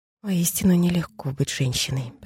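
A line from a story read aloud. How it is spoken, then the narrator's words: Muttering. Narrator (Russian): пробормотала Стефани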